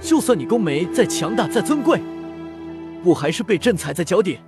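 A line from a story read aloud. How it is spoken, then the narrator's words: Laughing loudly. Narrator (Chinese): 大笑道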